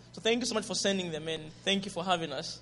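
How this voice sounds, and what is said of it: Zambian English accent. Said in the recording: “Is my accent, Zambian accent, okay?”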